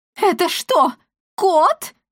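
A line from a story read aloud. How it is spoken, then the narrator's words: Sudden shriek. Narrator (Russian): взвизгнула вдруг госпожа Лавдотья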